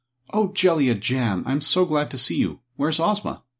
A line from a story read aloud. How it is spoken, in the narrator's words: with evident pleasure and exclaimed